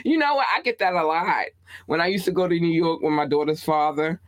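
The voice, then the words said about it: Baltimore accent. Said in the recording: “your Baltimore accent”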